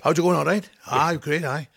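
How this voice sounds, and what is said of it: Very fast Welsh Valleys speech. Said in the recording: “in Pontypridd, where I come from, we talk like this. ... Really quick.”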